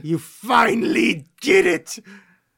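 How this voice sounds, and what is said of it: Charlton Heston impression. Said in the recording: “my Charles Houston impression.”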